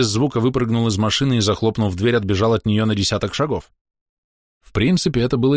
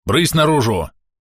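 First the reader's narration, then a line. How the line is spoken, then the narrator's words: Barking. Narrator (Russian): рявкнул он водителю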